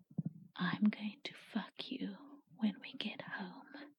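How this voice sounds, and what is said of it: Whispered intimate line. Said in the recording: “I put my mouth close to your ear and whisper”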